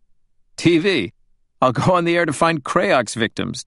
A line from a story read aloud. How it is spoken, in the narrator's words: David said, laughing